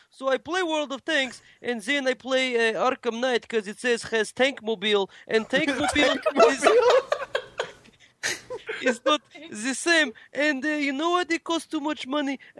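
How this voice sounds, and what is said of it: Put-on Russian accent. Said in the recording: “I'm doing a Russian accent on the podcast ... You keep making this accent ... That was pretty good.”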